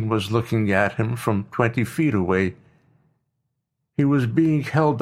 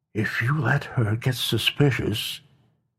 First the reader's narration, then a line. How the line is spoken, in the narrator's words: whispered directly in his ear